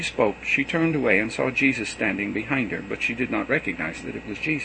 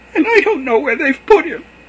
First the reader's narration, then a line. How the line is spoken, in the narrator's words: sobbed